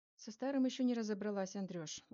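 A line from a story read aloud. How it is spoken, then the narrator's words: Sighing. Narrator (Russian): вздохнула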